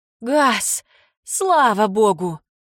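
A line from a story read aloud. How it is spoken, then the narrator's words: Exclaiming. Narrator (Russian): воскликнула Кейт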